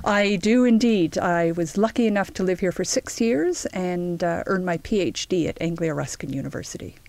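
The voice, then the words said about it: Canadian accent. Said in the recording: “you've got being Canadian in common, as we can hear from your accent”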